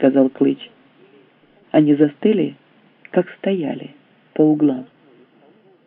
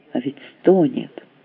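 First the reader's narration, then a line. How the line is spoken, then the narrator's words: Muttering. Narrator (Russian): пробормотал Клыч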